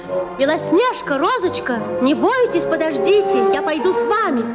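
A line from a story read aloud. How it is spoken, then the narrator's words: Bear calling out. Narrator (Russian): медведь крикнул им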